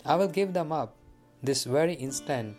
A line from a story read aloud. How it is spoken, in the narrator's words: replied